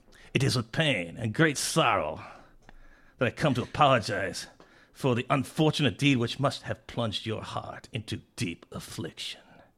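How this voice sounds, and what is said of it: Put-on French accent. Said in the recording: “Can I do it in a French accent? ... Do it in a French accent.”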